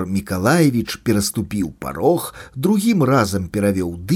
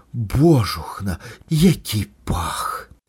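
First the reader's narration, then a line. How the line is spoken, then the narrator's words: Woman, slightly panicked whisper. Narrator (Belarusian): З інтанацыяй лёгкай панікі прамовіла жанчына, прашаптала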